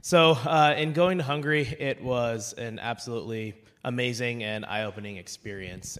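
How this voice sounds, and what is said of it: Strained, worn-out voice. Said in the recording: “Please forgive my voice.”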